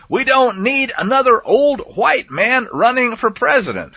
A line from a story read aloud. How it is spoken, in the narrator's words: shouted the man